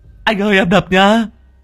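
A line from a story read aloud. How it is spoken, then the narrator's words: Trembling. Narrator (Vietnamese): Long đầu đất run run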